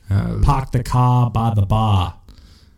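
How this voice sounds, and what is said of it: Attempted Boston accent. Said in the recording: “I can't do a Boston accent.”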